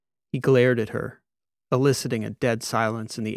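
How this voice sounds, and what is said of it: Usual voice. Nothing is said of it.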